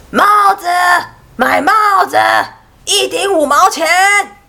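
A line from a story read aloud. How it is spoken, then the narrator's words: Hawker's sales cry. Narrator (Chinese): 他叫卖着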